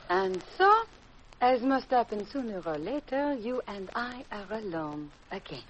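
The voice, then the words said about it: Fake French accent. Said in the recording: “you can drop that phony French accent”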